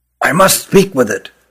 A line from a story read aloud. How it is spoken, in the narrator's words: whispered Rugum